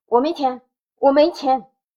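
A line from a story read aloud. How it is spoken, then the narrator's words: Old man shouting. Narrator (Chinese): 那个老人在高声的叫着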